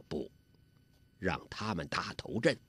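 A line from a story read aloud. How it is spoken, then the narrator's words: Low voice. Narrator (Chinese): 完颜洪烈低声地说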